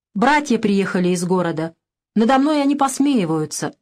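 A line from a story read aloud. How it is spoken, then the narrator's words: Plain. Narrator (Russian): сказал я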